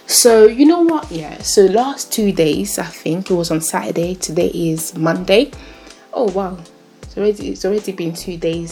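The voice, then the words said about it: Speaks English with own accent. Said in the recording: “it's my accent that is doing me some things”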